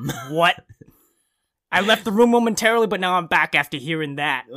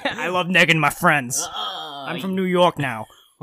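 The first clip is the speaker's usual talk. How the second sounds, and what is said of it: Weak put-on New York accent. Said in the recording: “You need to get a better accent for that.”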